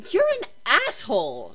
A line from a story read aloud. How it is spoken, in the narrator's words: she exclaims